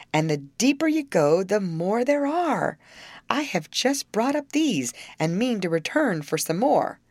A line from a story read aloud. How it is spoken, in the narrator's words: he cried